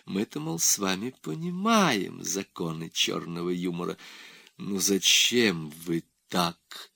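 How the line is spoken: Soft question. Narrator (Russian): Мягко спросил Крафаилов

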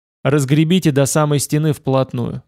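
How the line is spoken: Plain. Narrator (Russian): сказал я

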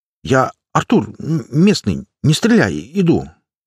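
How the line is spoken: Slightly stammering. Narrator (Russian): Немного запинаясь, сказал я

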